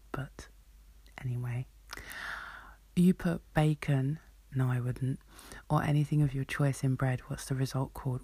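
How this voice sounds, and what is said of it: Southern English accent. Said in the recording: “I have a southern accent”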